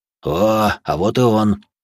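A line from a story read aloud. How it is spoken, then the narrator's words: Deep bass voice. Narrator (Russian): пробасил маг земли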